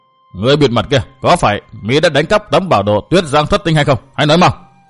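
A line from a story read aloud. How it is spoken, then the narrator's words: Sharp shout. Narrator (Vietnamese): Xích Thiên Hồng như quát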